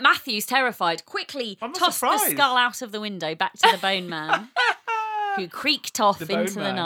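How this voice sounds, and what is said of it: Usual voice. Nothing is said of it.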